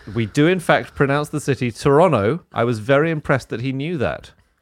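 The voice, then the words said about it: Strong accent. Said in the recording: “My accent is so strong that I've had to change my pronunciation to Toronto when talking to British people in order for them to understand me.”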